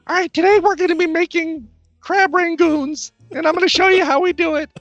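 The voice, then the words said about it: Bad Rachael Ray impression. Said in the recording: “bad Rachel Ray impression ... That's a really bad Rachel Ray impersonation.”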